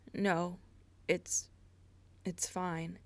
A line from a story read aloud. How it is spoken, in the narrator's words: Derek stiffly replied